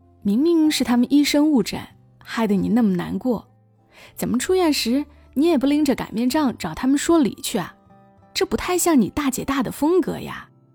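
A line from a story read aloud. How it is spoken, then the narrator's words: Smiling question. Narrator (Chinese): 笑笑的问他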